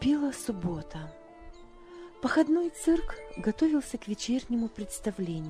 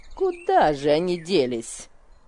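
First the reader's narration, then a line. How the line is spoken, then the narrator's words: Grumbling. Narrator (Russian): ворчала она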